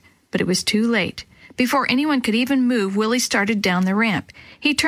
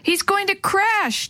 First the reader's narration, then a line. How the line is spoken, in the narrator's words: Dee Dee yelled